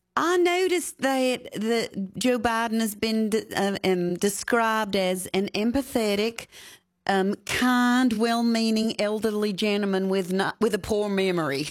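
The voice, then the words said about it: Louisiana accent. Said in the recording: “your Louisiana accent”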